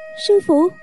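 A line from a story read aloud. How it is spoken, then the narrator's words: Anguished cry. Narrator (Vietnamese): Kỷ Hiểu Phù lòng như dao cắt, kêu lên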